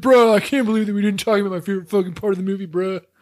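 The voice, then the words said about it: Uncanny impression of his co-host. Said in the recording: “doing an impression of me. I know it was uncanny.”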